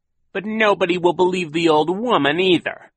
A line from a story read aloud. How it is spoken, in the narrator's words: Captain Sham said impatiently